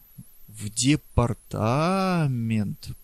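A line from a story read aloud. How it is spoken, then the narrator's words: Drawn-out voice. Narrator (Russian): протянула Элен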